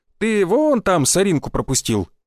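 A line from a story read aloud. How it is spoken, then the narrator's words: Mocking tone. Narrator (Russian): издевательским тоном сказал я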